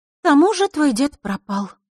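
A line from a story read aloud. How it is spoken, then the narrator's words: Sigh. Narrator (Russian): вздохнула Лиса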